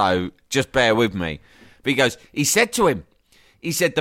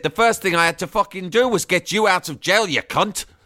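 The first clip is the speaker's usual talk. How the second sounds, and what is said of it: Scottish accent impression. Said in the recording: “an Englishman doing an impression of a Welshman doing an impression of a Scotsman”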